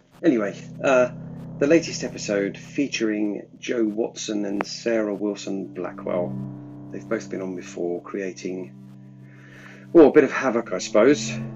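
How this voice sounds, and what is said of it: Congested voice from a cold. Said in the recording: “I've got a bit of a cold, I think, at the moment. Summer cold.”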